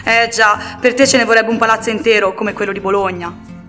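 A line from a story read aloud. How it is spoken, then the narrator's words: Parents sighing. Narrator (Italian): i genitori sospirano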